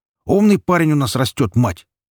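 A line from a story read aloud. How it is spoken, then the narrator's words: Loud announcement. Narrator (Russian): громко объявил он так, чтобы гремевшая посуда за грубой жена услышала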